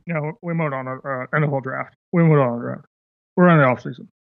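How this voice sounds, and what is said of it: Imitates another person's voice. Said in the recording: “my Bill Belichick impression ... Yeah, that was great.”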